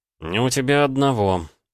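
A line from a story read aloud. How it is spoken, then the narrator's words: Sigh. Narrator (Russian): вздохнул я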